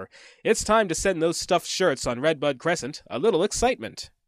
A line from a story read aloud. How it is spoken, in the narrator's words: God laughed up his sleeve and said to Gabriel or whoever